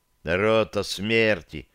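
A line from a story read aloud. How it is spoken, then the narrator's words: Gruff mutter. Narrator (Russian): буркнул он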